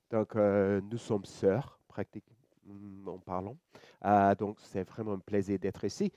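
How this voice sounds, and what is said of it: Slight Australian accent in French. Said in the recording (French): “vous pouvez entendre mon petit accent. Je suis australien.”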